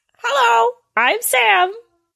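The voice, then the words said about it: Mock impression of his own voice. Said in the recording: “are you doing an impression of yourself?”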